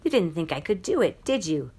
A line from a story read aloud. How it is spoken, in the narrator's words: cried the ancient sister, turning round and grinning